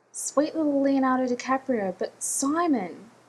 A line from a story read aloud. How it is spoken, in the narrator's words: Sandberg cried, reaching his crescendo